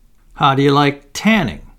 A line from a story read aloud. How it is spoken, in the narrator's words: he exclaimed